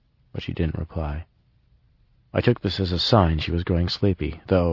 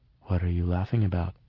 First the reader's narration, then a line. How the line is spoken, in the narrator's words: asked in a hollow voice